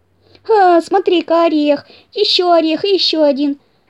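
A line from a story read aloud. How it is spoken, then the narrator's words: Joyful shout. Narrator (Russian): закричал радостно Мортон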